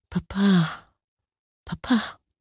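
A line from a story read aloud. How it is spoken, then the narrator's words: Soft call. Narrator (German): rief ihn leise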